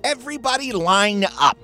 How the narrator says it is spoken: he shouted

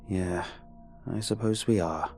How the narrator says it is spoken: I sigh

